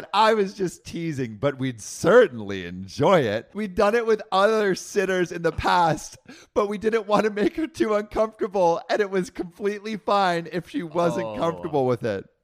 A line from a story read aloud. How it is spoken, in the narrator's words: laughed and said